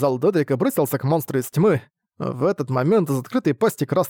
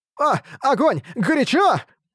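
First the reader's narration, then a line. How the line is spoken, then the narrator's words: Shouting. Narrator (Russian): Дедрик кричал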